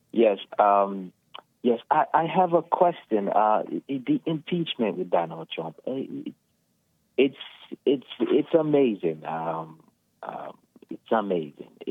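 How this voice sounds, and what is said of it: Kenyan-accented English. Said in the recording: “I recognize your voice and accent. ... From Kenya.”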